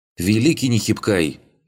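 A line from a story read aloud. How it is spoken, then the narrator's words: Boy's sudden shout. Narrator (Russian): вдруг закричал один из мальчишек, и его голос показался Арлингу знакомым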